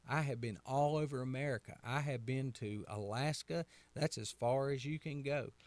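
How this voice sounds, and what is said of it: Southern American accent. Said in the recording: “I'm from North Carolina. I have a Southern accent.”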